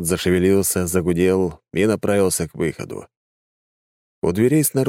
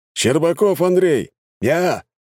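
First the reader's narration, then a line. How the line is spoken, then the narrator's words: Shout. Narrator (Russian): выкрикнул Андрей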